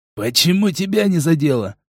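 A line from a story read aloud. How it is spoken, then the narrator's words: Growling. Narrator (Russian): Прорычал Серый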